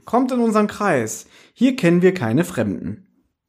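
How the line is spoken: Calling out. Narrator (German): rief sie

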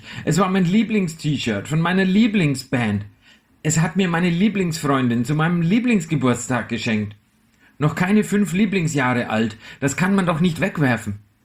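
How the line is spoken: Screaming. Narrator (German): schrie ich

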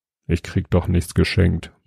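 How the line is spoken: Mumble. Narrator (German): murmelte Jobst

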